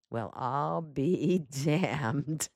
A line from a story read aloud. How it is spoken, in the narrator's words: Perry Mason said softly